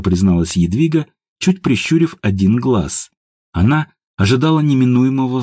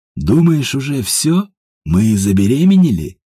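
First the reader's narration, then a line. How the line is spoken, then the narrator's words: Sultry purring. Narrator (Russian): точно мартовский кот замурлыкал Ажуров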